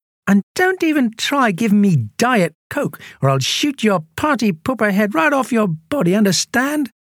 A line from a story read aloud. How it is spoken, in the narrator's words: loudly enough for everyone to hear, he said